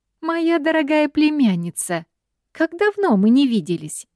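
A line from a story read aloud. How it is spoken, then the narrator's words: Cheerful chirping in Spanish. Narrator (Russian): Весело щебечет она на испанском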